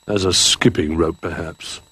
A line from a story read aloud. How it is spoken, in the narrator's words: grumbled Duck